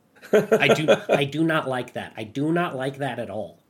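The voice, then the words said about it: Imitated character voice, well done. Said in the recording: “your Stroop impression. ... It's really good.”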